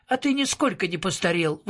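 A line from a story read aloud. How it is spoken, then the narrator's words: Admiring exclamation. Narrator (Russian): восхищенно воскликнул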